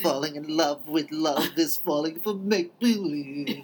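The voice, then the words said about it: Poor imitation of another person's singing voice. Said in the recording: “If you're gonna do it in the right accent. ... My terrible Bernadette Peters impression.”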